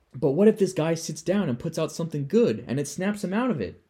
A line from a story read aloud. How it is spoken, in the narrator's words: Don asks desperately